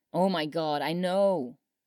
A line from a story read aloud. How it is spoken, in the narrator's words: CJ groaned